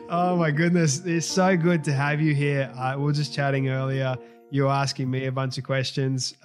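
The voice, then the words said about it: Australian accent. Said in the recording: “it's so nice to hear an Aussie accent”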